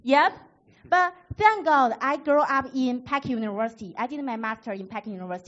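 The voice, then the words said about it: Northeastern Chinese accent. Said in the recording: “my northeastern Chinese accent”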